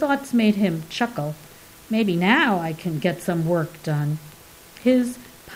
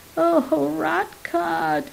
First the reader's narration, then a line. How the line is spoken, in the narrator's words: it wailed from the floor